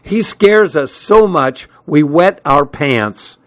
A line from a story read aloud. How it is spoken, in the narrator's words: shouted over the blast of air, which was screaming through the open windows